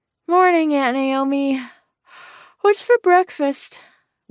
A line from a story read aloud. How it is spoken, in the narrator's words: Waylay yawned from the kitchen